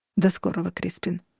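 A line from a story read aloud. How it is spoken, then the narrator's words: Even voice. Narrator (Russian): сказал он ровным голосом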